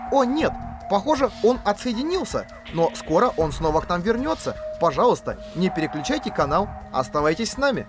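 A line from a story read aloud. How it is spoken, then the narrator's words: Agitated presenter. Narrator (Russian): Ведущая взволнованно произнесла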